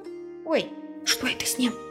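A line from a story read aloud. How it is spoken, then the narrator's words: Whispered question, child. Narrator (Russian): Шепотом спросила девочка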